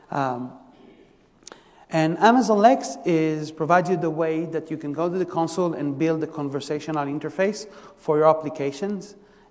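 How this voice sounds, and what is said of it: Israeli-accented English. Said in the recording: “I'm originally from Israel, you can hear from the by the accent”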